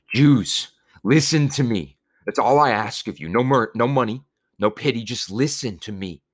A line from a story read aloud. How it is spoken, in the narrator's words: As for Moshe, he wept and pleaded